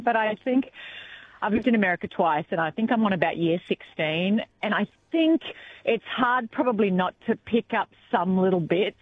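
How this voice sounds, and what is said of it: Australian accent, slight American hint. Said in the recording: “you've got this Australian accent ... you have a little hint of an American accent”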